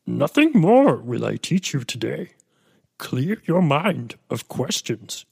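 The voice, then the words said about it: Yoda character voice impression. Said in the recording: “my Yoda impersonation.”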